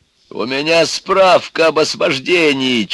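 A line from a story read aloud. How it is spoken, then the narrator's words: Near shout. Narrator (Russian): чуть не заорал ему в лицо Егор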